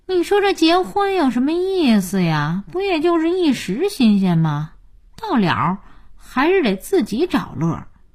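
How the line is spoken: Sighing. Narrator (Chinese): 佳音叹气

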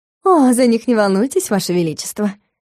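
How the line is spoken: Sly singsong. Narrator (Russian): Ехидно пропела Лиссандра

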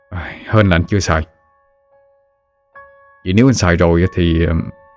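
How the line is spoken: Sighing. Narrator (Vietnamese): Dũng thở dài

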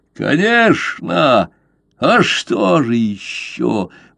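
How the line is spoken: Mocking laugh. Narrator (Russian): Он снова засмеялся, как показалось Дайку издевательски

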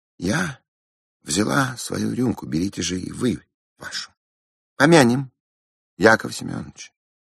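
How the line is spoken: Calm woman's voice. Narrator (Russian): спокойно сказала баронесса

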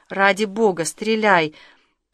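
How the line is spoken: Almost groaning. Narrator (Russian): почти простонал

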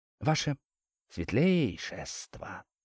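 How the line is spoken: Distinct female whisper. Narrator (Russian): отчетливо раздался женский шепот над левым ухом

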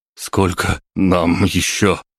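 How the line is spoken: Breathless slurred speech. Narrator (Russian): выдохнул я с заплетающимся языком

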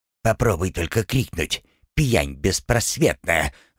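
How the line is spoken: Vicious hiss, dwarf. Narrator (Russian): злобно прошипел карлик

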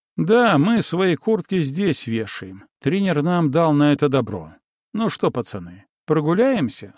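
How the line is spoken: Plain. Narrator (Russian): спросил

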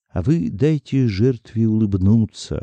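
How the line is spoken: Plain. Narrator (Russian): ответил Артем

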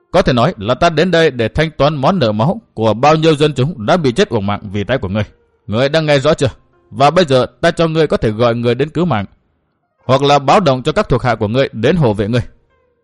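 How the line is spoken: Stern voice. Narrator (Vietnamese): Chu Sương nghiêm giọng

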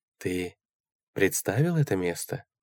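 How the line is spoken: Soft question. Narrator (Russian): мягко спросила мисс Рокси

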